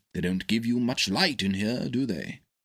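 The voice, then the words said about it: Kindly, gentle speaking voice. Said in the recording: “in a kindly voice”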